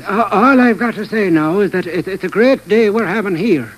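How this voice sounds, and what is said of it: Put-on Irish accent. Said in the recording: “Well, that's Irish.”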